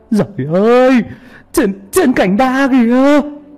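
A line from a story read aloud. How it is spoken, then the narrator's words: Fearful cry. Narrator (Vietnamese): Mọi người còn chưa hết bàng hoàng thì một người lại kêu lên đầy sợ hãi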